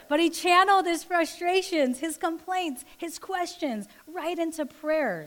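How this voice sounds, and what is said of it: Usual voice. Nothing is said of it.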